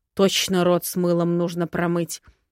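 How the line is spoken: Irritated old man grumbling. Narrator (Russian): раздраженно буркнул наглый старикашка

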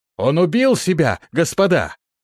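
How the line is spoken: Shouted. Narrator (Russian): крикнул

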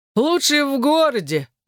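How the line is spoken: Loud laughing. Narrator (Russian): захохотал он

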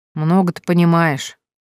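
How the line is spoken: Grumbling. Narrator (Russian): ворчал Евгений

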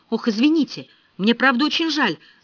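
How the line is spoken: Forced out, strained. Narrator (Russian): выдавил Ричард

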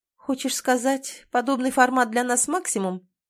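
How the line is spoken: Too dry. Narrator (Russian): произносит слишком сухо

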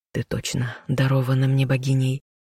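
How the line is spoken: Smiling whisper. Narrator (Russian): прошептал он, улыбнувшись

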